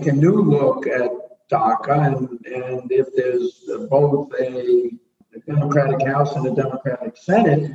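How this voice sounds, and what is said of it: Brooklyn accent. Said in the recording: “your beautiful Brooklyn accent”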